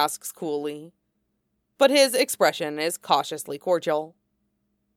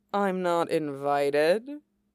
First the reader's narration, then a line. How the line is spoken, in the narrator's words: Toka drawls, lazily amused